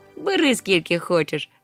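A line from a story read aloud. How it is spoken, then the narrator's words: Laughing. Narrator (Ukrainian): засміявся Нюхмумрик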